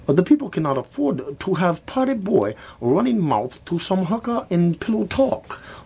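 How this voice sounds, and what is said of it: Fake Chinese accent. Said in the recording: “Try saying that 3 times fast in a fake Chinese accent.”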